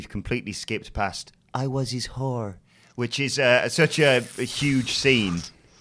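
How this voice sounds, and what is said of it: Usual voice. Nothing is said of it.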